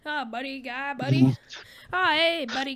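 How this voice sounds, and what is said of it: Exaggerated Canadian accent. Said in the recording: “very Canadian accent.”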